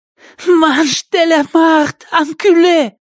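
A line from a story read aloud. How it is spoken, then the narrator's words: Hoarse girl's rasp. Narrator (Russian): прохрипела девушка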